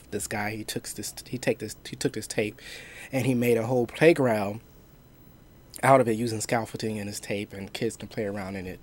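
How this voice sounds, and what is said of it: Weird, sick-sounding voice. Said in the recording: “apologize for my voice. My voice is a little weird right now because I am currently have a cold”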